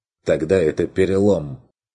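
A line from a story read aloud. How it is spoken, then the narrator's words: Forcedly calm. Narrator (Russian): откликнулся Бруно, пытаясь держаться спокойно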